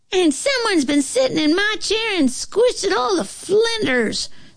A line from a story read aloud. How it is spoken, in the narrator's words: squeaked the bear cub in a little bit bigger voice than before